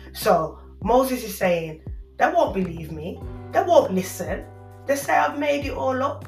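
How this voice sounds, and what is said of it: Birmingham English accent. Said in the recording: “my Brummie accent”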